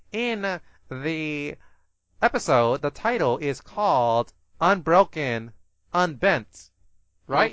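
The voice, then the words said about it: Condescending, hoity-toity annoying voice. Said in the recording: “My condescending, my hoity-toity narrative fedora ... I'm gonna try to do it in my most annoying voice possible”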